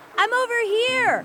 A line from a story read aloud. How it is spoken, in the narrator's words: Mowgli hollered